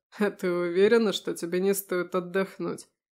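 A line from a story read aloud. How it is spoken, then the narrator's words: Werewolf chuckling. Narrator (Russian): хохотнул оборотень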